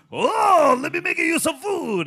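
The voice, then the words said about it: Put-on stereotyped Asian accent. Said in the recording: “insensitive Asian voices”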